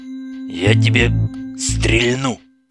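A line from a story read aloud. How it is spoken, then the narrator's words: Deep voice behind door. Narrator (Russian): пробасил кто-то за дверью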